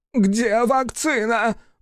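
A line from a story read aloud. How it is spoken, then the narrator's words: Shrill squeal. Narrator (Russian): взвизгнул Андерсон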